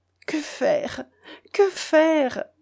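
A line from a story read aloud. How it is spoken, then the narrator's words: Sobbing. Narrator (French): dit Edmé avec un sanglot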